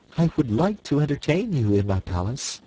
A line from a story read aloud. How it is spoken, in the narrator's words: returned Ozma sweetly